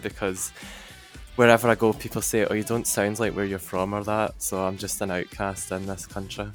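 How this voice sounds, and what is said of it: Scottish accent. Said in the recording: “I love the accent ... it really came out as he was talking about where he's from ... in the middle of Scotland”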